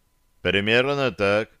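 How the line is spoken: Dry. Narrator (Russian): сухо кивнул я

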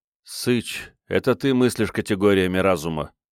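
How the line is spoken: Gloomy interjection. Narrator (Russian): мрачно вставил Джон

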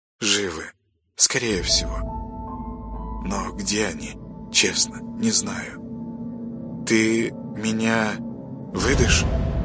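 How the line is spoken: Muffled. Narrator (Russian): глухо произнесла

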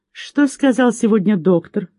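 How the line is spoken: Tender question. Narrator (Russian): спросил он нежно

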